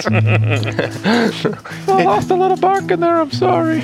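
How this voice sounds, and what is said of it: Squeaky little character voice. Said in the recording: “this little squeaky voice coming from, like, near this big gruff orc”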